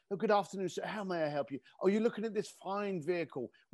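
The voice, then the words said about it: Posh British accent. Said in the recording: “you became British ... there was almost this accent that people would call”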